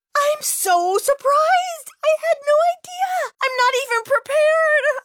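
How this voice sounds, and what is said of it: Gushing mock acceptance-speech delivery. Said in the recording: “my impression of a Hollywood acceptance speech”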